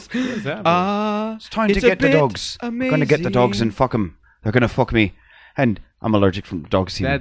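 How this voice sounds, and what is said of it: Put-on Irish accent, older woman. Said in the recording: “Let's see if I can do a 57-year-old woman Irish accent ... Close ... it's close ... Not quite 57”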